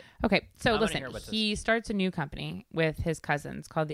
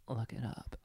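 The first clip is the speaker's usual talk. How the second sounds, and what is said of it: Sexy radio voice. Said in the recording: “That's my sexy radio voice.”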